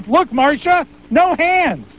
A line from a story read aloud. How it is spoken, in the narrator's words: he yelled to his wife